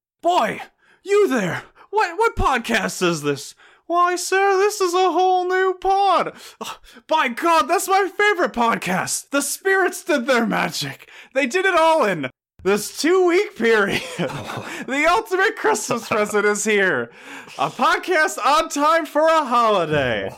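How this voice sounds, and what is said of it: Old miserly Victorian English character voice. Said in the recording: “in my Ebenezer Scrooge voice.”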